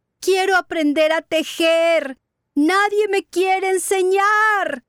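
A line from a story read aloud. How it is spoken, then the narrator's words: Wailing loudly. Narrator (Spanish): comenzó a llorar a gritos diciendo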